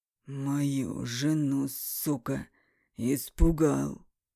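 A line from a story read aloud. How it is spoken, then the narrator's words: Hoarse. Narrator (Russian): Прохрипел Эмиль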